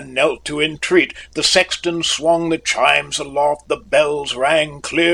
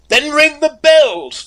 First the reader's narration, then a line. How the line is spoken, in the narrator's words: the bridegroom cried